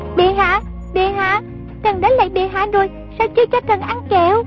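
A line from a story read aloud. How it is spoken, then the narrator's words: Child's shout. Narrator (Vietnamese): trong rừng cây có giọng con nít la lên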